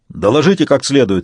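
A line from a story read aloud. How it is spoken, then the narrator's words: Barked command. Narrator (Russian): рявкнул Сварог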